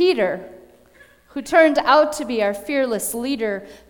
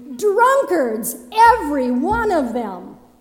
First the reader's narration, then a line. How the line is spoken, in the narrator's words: Another shouted disgustingly